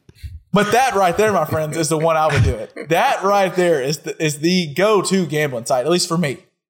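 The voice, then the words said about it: Smooth, sexy late-night radio voice. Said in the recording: “Is ... voice sexy ... just a little bit arousing ... That's a sexy voice right there ... that's my 12 a.m. to 6 a.m. FM voice”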